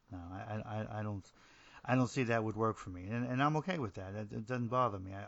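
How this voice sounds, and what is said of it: New Jersey accent. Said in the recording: “somebody with a New Jersey accent doing a show about literature”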